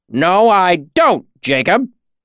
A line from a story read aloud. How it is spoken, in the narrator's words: Cobb snapped